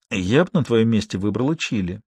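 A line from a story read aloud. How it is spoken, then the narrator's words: Whispered advice. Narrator (Russian): шепотом посоветовала Алиса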